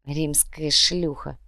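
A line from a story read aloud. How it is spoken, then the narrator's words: Muttered. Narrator (Russian): пробормотал Эрик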